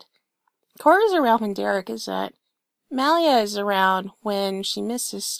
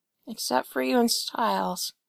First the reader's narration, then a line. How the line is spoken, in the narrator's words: Allison says softly